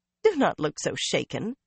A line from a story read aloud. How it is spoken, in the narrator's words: Bear chuckled